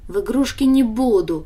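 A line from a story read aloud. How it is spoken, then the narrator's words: Snort. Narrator (Russian): фыркнула Даша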